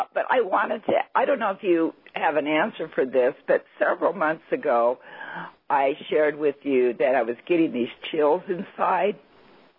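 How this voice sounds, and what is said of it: Hoarse, sore-throat voice. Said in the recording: “my voice is kind of have a sore throat right now”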